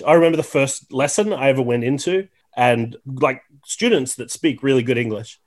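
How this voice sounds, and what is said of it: Mild Australian accent. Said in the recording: “I'm from Tasmania, which is, we have, I think, some of the milder Australian accents ... obviously, I have an accent”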